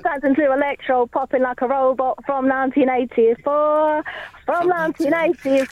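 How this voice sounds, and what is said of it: Sung northern English twang. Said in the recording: “Northern twang as well. ... To do that on Alex Turner vocals. ... You're doing an Alex Turner impression. ... I know you were really leaning into it.”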